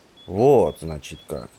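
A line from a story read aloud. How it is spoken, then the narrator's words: Drawling. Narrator (Russian): протянул Кришатра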